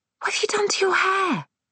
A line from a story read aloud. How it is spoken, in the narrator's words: I hissed